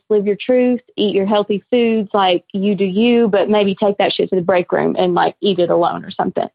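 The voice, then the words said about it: Southern US accent. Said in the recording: “I love a good Southern solid accent”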